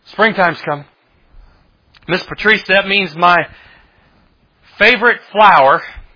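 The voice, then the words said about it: Sarcastic tone. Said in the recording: “I say that sarcastically”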